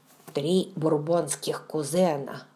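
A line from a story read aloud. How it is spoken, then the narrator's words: Muttering under breath. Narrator (Russian): бормотал Раймон себе под нос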